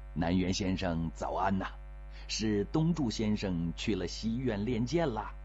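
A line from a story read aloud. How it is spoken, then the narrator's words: Laughing. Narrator (Chinese): 笑着说了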